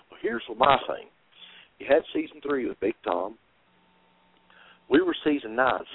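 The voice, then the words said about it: Strong Southern American accent. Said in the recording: “I have this real strong Southern accent ... that country voice”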